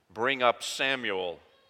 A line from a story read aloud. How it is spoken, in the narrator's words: he said